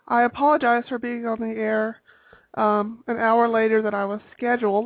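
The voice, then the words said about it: Congested, allergy-affected voice. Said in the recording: “I'm actually suffering from some allergies, as you could probably tell from my voice”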